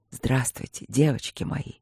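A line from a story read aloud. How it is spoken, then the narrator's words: Ardent whisper. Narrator (Russian): горячо прошептал маг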